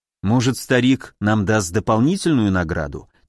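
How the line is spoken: Quiet suggestion. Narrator (Russian): тихо предположил я

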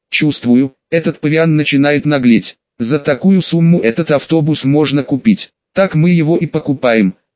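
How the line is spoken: Snorting interruption. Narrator (Russian): хмыкнув, прервал меня Брикс

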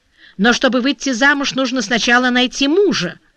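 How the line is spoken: Husband sharply interrupting. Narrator (Russian): резко прервал ее муж

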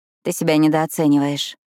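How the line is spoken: Grumbled. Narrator (Russian): буркнула Пиппа

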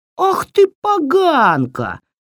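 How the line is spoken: Yelling. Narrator (Russian): завопила Баба-яга

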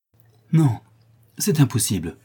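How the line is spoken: Exclaimed. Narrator (French): s'écria le prince

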